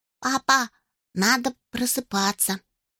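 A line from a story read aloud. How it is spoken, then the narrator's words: Quiet, earnest child's voice. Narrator (Russian): Уля Александр очень стараясь, сказал тихо, как поймальчик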